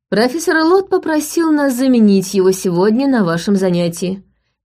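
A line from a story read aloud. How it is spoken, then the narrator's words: Loud announcement. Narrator (Russian): громко произнесла Джулиана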